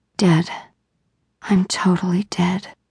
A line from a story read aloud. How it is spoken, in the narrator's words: All Eva could whisper was